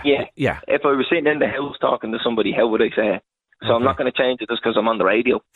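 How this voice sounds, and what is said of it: Strong local regional accent. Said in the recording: “I lean into the accent ... sound exactly like us”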